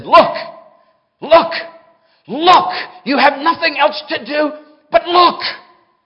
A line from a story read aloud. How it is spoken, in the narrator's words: he said, he shouted, as only a primitive Baptist could do, he said